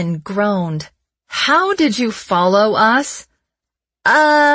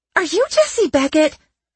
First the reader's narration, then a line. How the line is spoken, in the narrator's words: Olivia blurted out